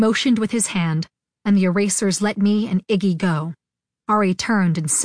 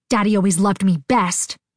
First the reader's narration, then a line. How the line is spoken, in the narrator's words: I hissed